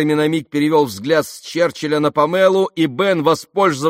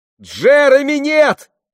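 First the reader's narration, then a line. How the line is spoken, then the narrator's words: Shouted. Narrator (Russian): крикнула Памела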